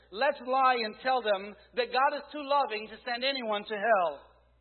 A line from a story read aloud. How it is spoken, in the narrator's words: Another shouted